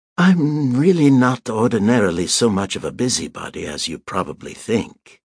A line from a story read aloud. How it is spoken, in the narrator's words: she said gaily